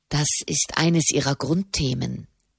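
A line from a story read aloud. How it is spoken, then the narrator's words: Quiet explanation. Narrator (German): erklärte Soderini leise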